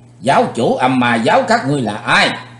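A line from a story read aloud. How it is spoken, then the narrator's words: Loud shout. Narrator (Vietnamese): Chàng hét lớn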